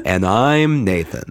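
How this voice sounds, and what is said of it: Official-sounding put-on radio voice. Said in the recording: “You're very official ... I'm practicing my radio voice ... I feel like it would give us more gravitas ... You just sound off-putting”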